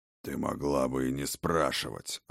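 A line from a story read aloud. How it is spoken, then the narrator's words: Old man's growl. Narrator (Russian): рыкнул старый Хрофт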